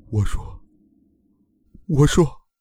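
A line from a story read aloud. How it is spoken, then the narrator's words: Broken, mumbling repeatedly. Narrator (Chinese): 精神防线被彻底击垮了，嘴里不断的喃喃道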